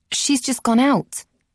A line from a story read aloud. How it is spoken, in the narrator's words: I said